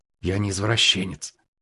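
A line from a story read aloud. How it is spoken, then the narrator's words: Whisper. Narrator (Russian): прошептал Валера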